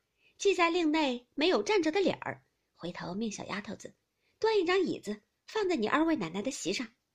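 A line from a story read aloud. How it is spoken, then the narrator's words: Laughing. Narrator (Chinese): 王夫人笑道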